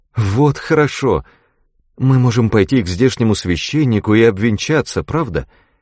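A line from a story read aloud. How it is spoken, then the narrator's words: Quick exclamation. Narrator (Russian): Роберта сразу воскликнула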